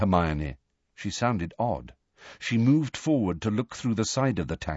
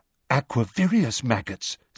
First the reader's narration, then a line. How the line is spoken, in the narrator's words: said Luna excitedly